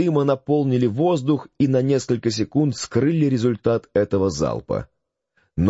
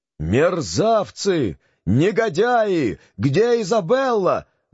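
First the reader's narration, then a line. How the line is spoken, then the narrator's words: Shouting. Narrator (Russian): закричал сиганьяк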